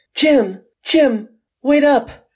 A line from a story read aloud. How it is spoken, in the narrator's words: Gwen cries